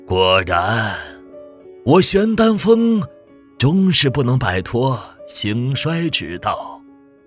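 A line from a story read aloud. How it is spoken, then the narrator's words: Murmuring. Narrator (Chinese): 楚丹阳喃喃道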